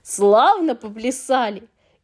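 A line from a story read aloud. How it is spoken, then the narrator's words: Old creature shouting. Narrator (Russian): старый физиунг закричал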